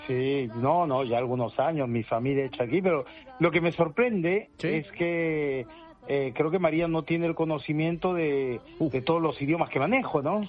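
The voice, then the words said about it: Speaks Spanish with a noticeable accent. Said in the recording (Spanish): “¡Ah, qué acento!”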